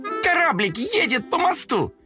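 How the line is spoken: Kitten shouting at full voice. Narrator (Russian): во весь голос закричал котенок

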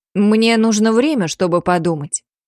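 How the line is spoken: Plain, aloud. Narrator (Russian): сказала я вслух

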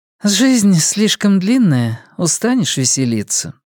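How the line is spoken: Sigh. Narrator (Russian): вздохнула Карин

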